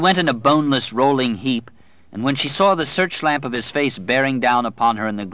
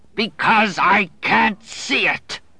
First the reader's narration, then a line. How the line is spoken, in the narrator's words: he roared